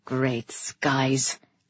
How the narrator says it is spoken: Kairos murmured

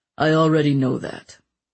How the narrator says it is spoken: the king said flatly

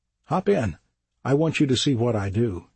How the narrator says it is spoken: he says

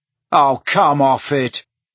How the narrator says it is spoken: told the wall irritably

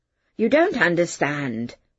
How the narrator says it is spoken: the chemist said

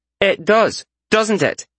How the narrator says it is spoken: She snapped

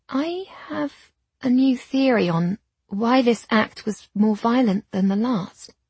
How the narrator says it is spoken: I said slowly

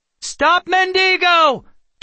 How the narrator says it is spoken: Kendra shouted to anyone who might hear

